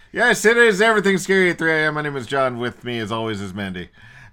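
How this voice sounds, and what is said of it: Usual voice. Nothing is said of it.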